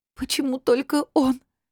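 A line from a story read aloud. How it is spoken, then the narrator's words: Sobbing question. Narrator (Russian): всхлипывая, спросила Рита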